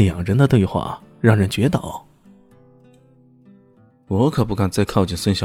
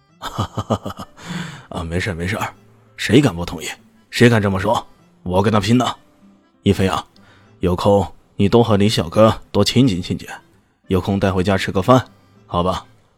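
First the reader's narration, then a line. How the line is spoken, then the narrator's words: Jovial laughing. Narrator (Chinese): 他笑呵呵的说道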